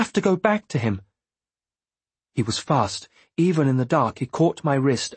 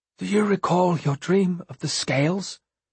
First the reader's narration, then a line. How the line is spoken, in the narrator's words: In a choked voice, he asked